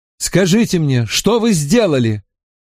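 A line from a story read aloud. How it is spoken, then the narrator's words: Pleading. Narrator (Russian): взмолился Стивен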